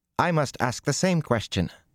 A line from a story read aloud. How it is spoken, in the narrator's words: Nassoon said sharply